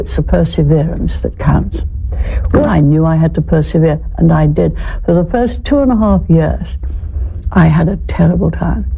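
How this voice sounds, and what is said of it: Distinctive accent. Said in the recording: “Can you imagine ordering in a McDonald's drive-thru in that accent?”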